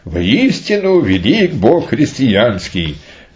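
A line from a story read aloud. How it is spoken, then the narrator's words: Loud calling out. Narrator (Russian): громко взывал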